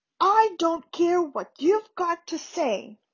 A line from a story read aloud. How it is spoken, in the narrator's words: Harry roared